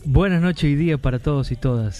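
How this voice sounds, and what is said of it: Radio announcer voice. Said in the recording (Spanish): “¿Qué voz? ... ¿Qué voz de locutor?”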